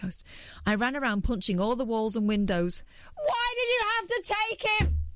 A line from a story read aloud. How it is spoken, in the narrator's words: I screamed